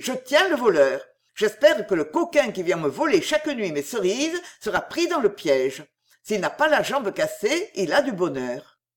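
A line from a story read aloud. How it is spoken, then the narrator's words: Shouting. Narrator (French): criait-il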